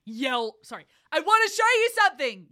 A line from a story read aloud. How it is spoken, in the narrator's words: yelled River